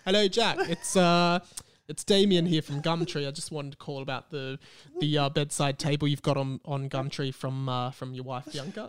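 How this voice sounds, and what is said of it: Put-on British accent. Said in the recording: “he was doing a British accent. Damien was British. ... I was doing pretty much doing Christian's accent.”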